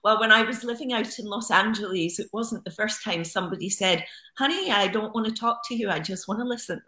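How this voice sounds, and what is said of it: Noticeable, musical-sounding accent. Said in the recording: “It is such a beautiful accent. ... It is a very musical accent”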